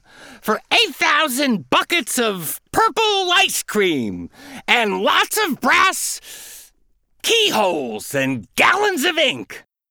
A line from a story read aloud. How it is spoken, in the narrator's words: yelled the duck, and he started to scream